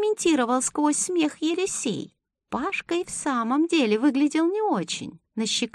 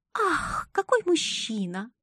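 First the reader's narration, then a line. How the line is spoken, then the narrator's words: Sad sigh. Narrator (Russian): вздохнула огорченно Элли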